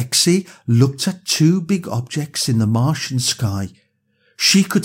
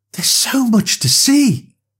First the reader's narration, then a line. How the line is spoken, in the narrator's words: Lexi exclaimed excitedly